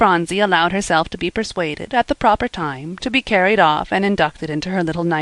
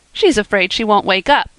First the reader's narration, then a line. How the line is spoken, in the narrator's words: said Percy, laughing